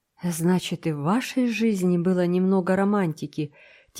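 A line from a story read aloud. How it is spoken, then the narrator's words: Quiet. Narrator (Russian): тихо сказала Энн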